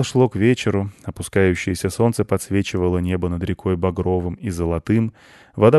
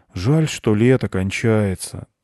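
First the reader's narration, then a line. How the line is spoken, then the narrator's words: Sighing. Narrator (Russian): вздохнул Миша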